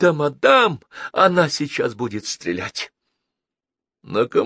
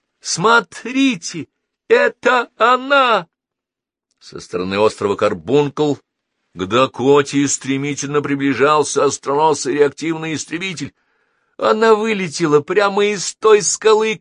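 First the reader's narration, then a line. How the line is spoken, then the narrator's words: Shout. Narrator (Russian): крикнула Долис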